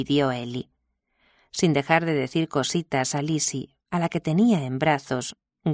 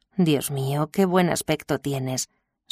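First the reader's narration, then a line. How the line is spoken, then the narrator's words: Tense, reedy sigh. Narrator (Spanish): suspiró Will con una voz tensa, aflautada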